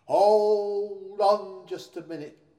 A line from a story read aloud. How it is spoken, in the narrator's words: cried Santa